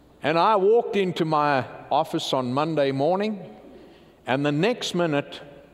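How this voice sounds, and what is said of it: Louisiana accent. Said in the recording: “my Louisiana accent”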